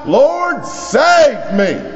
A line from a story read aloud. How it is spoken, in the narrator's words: He just screams out